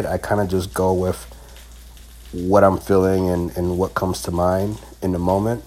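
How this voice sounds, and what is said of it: Slightly off, sore-throat voice. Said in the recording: “My voice might sound a little funny because I am recovering from a sore throat.”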